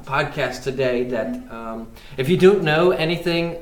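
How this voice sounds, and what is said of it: Sudden put-on British accent. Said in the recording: “I don't know why I just went British.”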